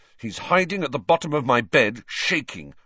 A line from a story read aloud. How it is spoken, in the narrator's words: said Ron angrily